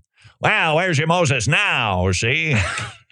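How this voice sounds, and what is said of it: Imitates another person's voice. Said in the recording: “Then there's Edward G. Robinson. Wow, am I dusting off the Edward G. Robinson? ... I think that actually was an impersonation of Rob Schneider doing an impersonation.”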